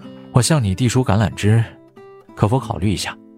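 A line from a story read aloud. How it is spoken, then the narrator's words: Marveling, sighing question. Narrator (Chinese): 我感叹不已，继续问道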